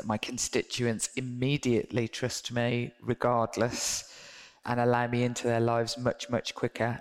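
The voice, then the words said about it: Birmingham regional English accent. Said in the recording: “I have a Birmingham accent ... having a regional accent”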